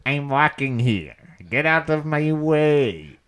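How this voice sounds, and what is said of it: Exaggerated New York accent. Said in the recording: “a shit New York accent that goes”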